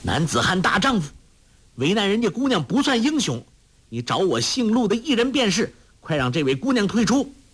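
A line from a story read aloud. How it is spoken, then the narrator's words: Loud. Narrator (Chinese): 陆冠英奋力招架，向侯通海大声说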